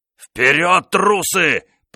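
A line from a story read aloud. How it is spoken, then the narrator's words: Roar. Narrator (Russian): проревел де Монтеспань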